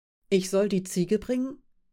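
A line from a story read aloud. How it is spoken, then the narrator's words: Plain question. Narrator (German): fragte Aschnikow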